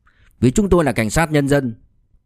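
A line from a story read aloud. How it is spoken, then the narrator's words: Angry. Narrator (Vietnamese): Lý Duy Chiết tức giận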